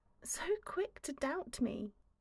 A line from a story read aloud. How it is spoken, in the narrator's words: she murmurs around the lash of his tongue